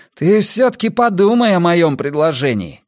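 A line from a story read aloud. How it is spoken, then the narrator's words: Shouting after someone. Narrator (Russian): крикнул я ему вдогонку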